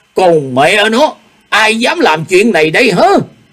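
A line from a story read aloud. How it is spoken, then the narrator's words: Angry shout. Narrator (Vietnamese): Ô Hữu Đạo nổi giận quát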